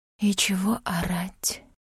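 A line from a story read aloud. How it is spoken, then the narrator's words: Breathy exhale, very close. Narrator (Russian): Кто-то выдохнул совсем близко, словно стоял за спиной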